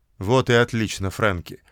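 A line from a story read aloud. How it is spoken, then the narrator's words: Calm. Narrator (Russian): спокойно сказал Бобби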